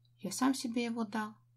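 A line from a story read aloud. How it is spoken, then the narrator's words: Calm answer. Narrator (Russian): отвечает спокойно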